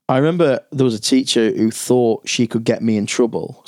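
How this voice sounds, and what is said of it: Speaks with a noticeable regional accent. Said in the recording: “The way you say that in your accent, I thought you meant our E.”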